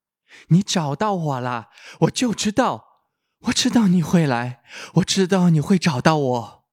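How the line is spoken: Girl calling out again. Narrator (Chinese): 女孩又喊一声

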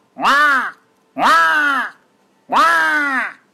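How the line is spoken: Loud squawking shouts. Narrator (Chinese): 乌鸦 大喊大叫

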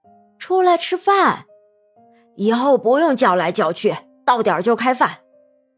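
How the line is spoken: Calling out. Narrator (Chinese): 冷雪茹叫道

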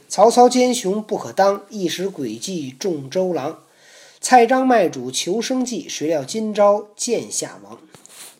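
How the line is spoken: Sighing recitation. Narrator (Chinese): 后人有诗叹曰

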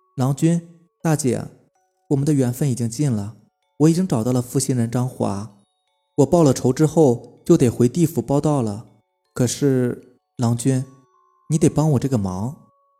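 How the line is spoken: Sighing. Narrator (Chinese): 白牡丹听了，叹了一口气，然后对张秀才两口子说

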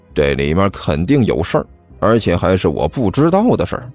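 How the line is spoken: Low muttering. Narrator (Chinese): 齐健低声嘀咕道

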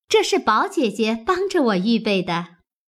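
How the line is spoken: Laughing. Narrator (Chinese): 湘云笑道

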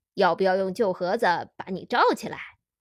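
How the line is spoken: Joking. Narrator (Chinese): 他跟我开玩笑

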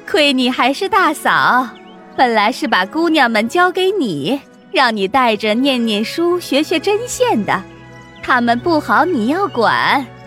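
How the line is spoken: Laughing, teasing. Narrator (Chinese): 凤姐又笑着对李纨说

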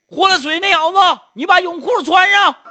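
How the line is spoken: Shouting. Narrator (Chinese): 有人喊

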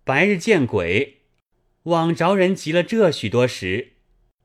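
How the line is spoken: Giggling. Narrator (Chinese): 龙香嘻的一笑，道

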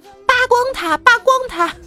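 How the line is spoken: Children shouting. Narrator (Chinese): 一帮熊孩子们大喊

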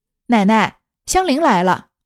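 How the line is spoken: Calling out from behind. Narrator (Chinese): 忽听背后一个人叫道

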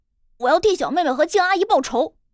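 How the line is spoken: Yelling. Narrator (Chinese): 笑笑嘴里还嚷着

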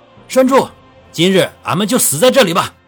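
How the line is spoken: Shouted. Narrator (Chinese): 赵勇冲着前面的赵栓柱等人喊道

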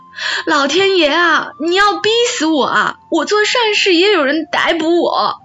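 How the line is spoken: Wailing, sobbing shout. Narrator (Chinese): 阿奶就失声撒泼大哭起来，一边哭一边喊

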